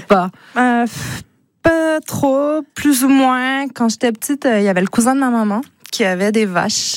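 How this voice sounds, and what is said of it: Québécois French accent. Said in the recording (French): “québécoise ... ce joli accent”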